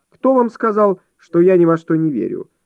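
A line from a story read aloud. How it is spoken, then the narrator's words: Stung exclamation. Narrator (Russian): воскликнул мсье Анатоль, уязвленный не на шутку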